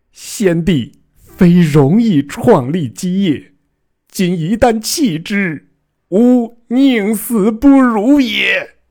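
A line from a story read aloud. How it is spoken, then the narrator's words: Loud wailing. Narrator (Chinese): 臣放声大哭曰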